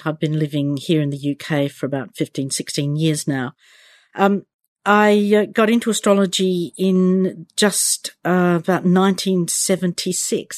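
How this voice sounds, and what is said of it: Australian accent. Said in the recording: “I'm Australian. You can tell from my accent.”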